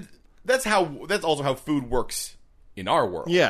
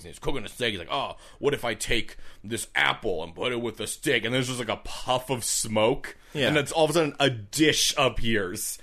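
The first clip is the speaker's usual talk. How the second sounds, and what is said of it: Caveman character voice. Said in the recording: “there's obviously a caveman, that's why I'm doing this voice”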